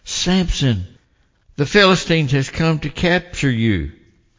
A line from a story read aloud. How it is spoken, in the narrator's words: cried out